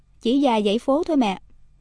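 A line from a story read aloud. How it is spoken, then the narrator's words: Plain. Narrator (Vietnamese): Caroline đáp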